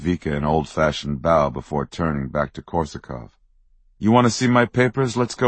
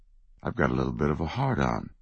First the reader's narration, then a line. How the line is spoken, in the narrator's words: whispered under his breath